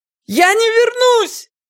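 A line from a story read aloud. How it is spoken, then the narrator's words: Sudden scream, woman. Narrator (Russian): Она внезапно закричала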